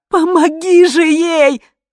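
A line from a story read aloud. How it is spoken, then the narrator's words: Shouting woman. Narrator (Russian): закричала жена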